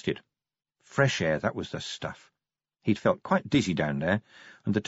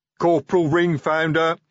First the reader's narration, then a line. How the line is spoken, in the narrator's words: he bellowed